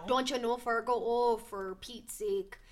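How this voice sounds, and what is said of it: Exaggerated Minnesota accent. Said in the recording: “I'm originally from Minnesota, St. Paul, Minnesota. So that's another accent too right there.”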